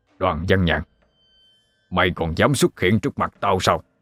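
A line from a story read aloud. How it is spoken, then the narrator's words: Shouting. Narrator (Vietnamese): thầy Út quát lên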